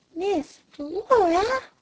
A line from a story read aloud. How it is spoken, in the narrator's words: gasped Flame